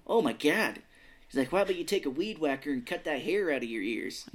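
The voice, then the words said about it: Put-on Minnesota or Boston accent. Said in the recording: “Are you from Minnesota?... that's a Christian Slater voice... it's coming off as Boston”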